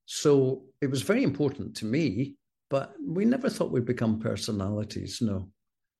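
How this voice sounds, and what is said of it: Scottish accent. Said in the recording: “you've got a Scottish accent”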